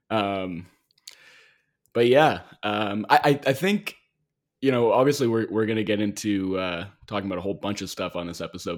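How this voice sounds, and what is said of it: Hoarse, gravelly voice. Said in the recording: “I'm going to apologize in advance for the state of my voice on this episode... my voice suffered for it... it might be a little bit more gravelly than usual”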